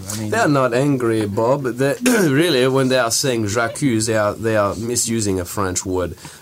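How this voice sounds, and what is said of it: Speaks with a strong put-on accent. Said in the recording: “That's why I'm speaking strangely today. Usually I don't have any accent.”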